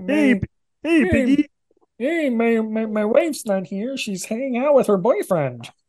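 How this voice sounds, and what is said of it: Kermit the Frog impression. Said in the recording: “give me some Kermit the Frog impersonations. Give me your Kermit. ... That's pretty good.”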